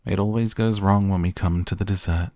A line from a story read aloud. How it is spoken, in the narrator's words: sighed Mr